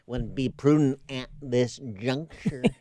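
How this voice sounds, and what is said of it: George H. W. Bush impression. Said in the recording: “impersonating Bush ... explain how you do a George Herbert Walker Bush impersonation ... start out with Mr. Rogers ... add a little John Wayne ... You got George Herbert Walker Bush”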